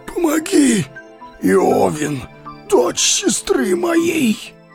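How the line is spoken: Hoarse wheeze. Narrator (Russian): прохрипел он

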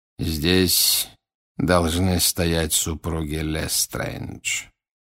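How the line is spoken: Quiet. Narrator (Russian): тихо произнес Волан-де-Морт

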